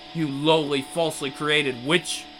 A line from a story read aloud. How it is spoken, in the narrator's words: Valentino spat, his voice brimming with bottomless hatred